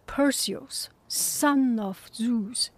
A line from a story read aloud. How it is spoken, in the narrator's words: hissed